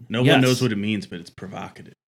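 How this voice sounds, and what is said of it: Imitates another person's voice. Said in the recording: “That sounded really good. That was really close. That was really good. ... That was almost ... like an ... Impersonation.”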